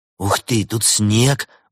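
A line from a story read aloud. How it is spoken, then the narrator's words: Exclaimed. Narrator (Russian): воскликнул Артем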